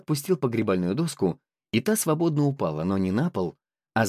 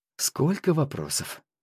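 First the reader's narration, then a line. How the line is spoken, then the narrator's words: Sigh. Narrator (Russian): вздохнул Наньгуадзы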